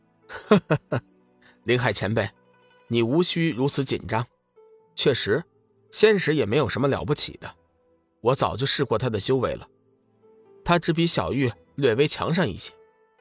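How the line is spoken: Calm, light laugh. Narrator (Chinese): 龙宇淡淡的笑道

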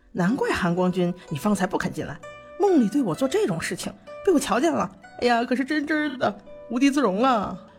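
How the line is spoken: Teasing laugh. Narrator (Chinese): 魏无羡笑着对蓝忘机说

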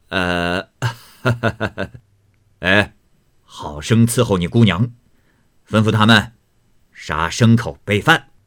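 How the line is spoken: Laughing. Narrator (Chinese): 贾珍还笑说

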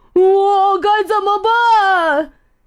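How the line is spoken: Shouting. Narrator (Chinese): 他大喊道

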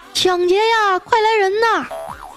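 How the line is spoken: Shouting while chasing. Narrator (Chinese): 我赶紧一边追一边大喊

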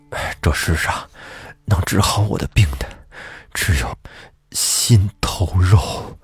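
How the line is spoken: Panting heavily. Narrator (Chinese): 书生喘着粗气说

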